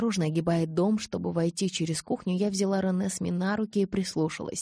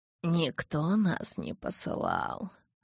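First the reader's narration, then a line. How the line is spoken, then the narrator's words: Muffled rustling reply. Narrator (Russian): глухо прошелестел гость Карлайлу в ответ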